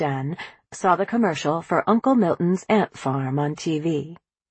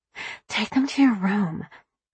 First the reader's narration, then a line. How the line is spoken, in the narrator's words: Ginger whispered to her brother